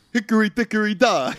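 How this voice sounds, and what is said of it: Imitates another person's voice. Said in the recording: “That was the Andrew Dice Clay impersonation.”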